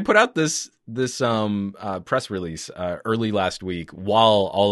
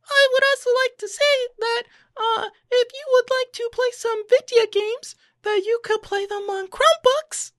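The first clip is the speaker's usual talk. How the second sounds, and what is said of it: Squeaky little voice. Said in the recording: “the best, like, squeaky little voice from the back of the auditorium ... that was my impersonation of Google”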